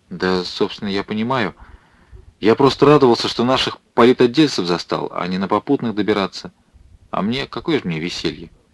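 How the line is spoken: Flustered mumble. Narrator (Russian): Политрук не вспылил, как ожидал Крымов, а заморгал глазами и пробормотал

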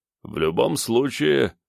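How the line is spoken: Plain. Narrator (Russian): сказал им Горвей

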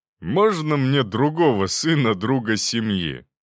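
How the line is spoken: Drunken laughter. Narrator (Russian): пьяно расхохотался тот

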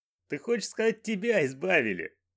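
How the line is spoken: Laughing. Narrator (Russian): рассмеялся Банджо

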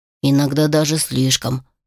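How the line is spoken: Quiet. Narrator (Russian): тихо добавил Алик

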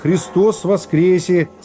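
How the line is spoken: Amused. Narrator (Russian): сказал, смеясь глазами

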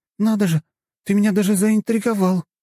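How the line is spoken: Joyful. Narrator (Russian): радостно сказала Надя

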